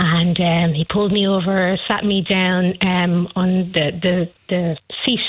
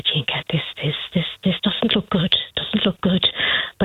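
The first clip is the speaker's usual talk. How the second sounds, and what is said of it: Imitated Kerry Irish accent. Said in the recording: “in his Kerry accent”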